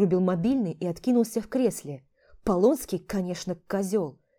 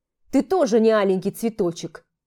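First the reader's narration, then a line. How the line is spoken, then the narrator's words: Snapping retort. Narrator (Russian): огрызнулся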